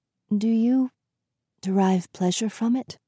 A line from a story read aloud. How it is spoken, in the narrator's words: She whispered